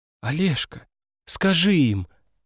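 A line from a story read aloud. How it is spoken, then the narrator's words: Pleading. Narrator (Russian): взмолилась она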